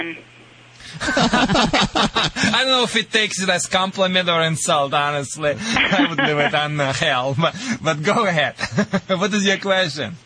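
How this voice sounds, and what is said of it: Russian accent. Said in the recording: “my Russian accent or Michigan accent, whatever it is”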